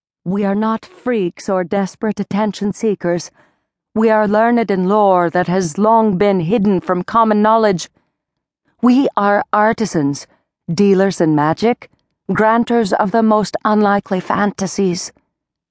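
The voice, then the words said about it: Sing-song Scandinavian accent. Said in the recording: “song Scandinavian accent”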